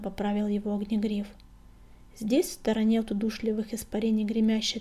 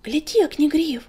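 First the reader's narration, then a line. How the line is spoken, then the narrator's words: Frightened whisper. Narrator (Russian): испуганно прошептал Крутобок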